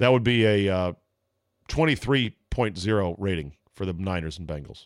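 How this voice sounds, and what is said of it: Usual voice. Nothing is said of it.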